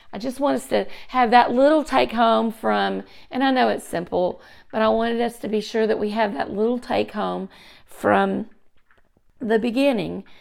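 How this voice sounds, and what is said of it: Hoarse, failing voice. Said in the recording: “sorry about my voice. It's going forever and ever and ever without really returning to me... I can't stop coughing”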